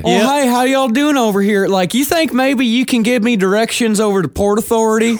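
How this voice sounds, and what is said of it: Put-on Southern American accent. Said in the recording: “just turn on your Southern accent”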